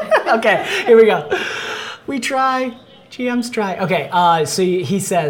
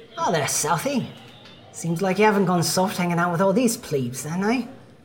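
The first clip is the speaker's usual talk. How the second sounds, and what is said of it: Young boyish character voice, put-on accent. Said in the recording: “this voice that has the accent of the northerner elves, the wild elves ... it sounds like a young boyish voice ... Correct the accent ... I can't get it”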